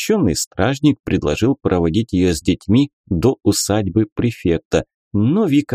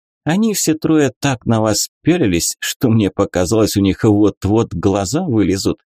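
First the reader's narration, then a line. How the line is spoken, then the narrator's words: Giggling. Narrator (Russian): хихикнула Нюра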